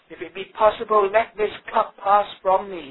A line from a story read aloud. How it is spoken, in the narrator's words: he cried